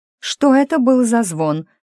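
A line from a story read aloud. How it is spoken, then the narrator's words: Shouted. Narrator (Russian): крикнула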